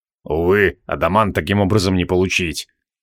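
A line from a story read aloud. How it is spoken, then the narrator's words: Gloomy. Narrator (Russian): мрачно поведал Криол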